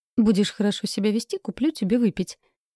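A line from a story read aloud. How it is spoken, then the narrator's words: Cheerful, offhand. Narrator (Russian): весело бросила я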